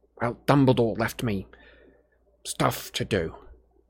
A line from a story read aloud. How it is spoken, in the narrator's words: mumbled Harry